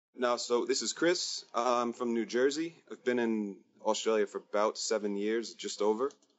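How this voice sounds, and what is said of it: Non-local accent. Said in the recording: “You obviously, judging by your accent, aren't local.”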